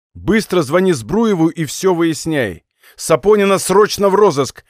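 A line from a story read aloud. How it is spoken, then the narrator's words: Barked. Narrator (Russian): рявкнул он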